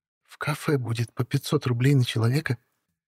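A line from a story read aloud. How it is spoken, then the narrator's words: Slightly quieter mutter. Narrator (Russian): чуть тише пробормотала она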